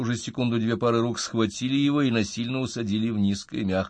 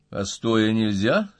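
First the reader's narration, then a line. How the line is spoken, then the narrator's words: Calm question. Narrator (Russian): спокойно спросил Стасов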